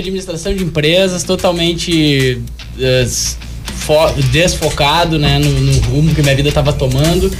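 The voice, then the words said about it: Gaúcho southern Brazilian accent. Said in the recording (Portuguese): “eu sou gaúcho. Ah, deu pra perceber o sotaque.”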